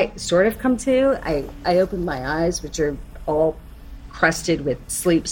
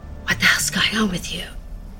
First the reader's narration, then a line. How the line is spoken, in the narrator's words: someone is whispering